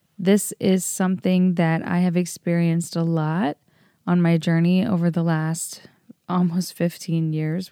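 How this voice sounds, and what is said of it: Tired, raspy voice. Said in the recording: “my voice sounds a lot more tired than usual ... my voice is a little bit more raspy than it usually is. I'm pretty exhausted.”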